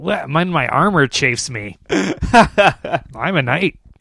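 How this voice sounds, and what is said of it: Pirate-like character voice. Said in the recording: “Sounds like a pirate.”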